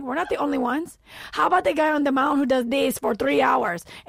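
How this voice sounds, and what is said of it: Imitated Spanish accent. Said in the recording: “With the best Spanish accent of all time.”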